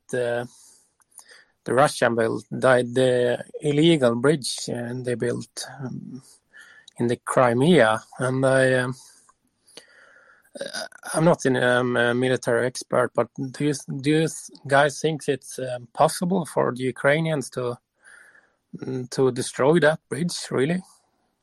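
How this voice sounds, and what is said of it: Swedish accent. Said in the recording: “I can't quite place your accent ... Sweden. Yeah, I thought so”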